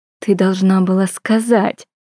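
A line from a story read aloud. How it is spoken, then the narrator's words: Through gritted teeth. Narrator (Russian): процедила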